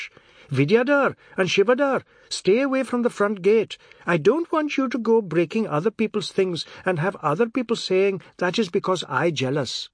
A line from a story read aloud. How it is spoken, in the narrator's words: Chinta shouted to her children in English